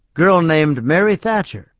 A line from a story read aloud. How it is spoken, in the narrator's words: Silva said cheerfully